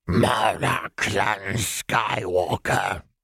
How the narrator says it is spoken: one of them rasped

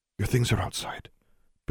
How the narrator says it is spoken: Billy whispered in her ear

